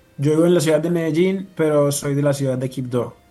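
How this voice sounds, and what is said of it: Noticeable regional Colombian accent. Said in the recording (Spanish): “sí lo notamos ahí por el acento, ¿no? Esta mezcla cultural.”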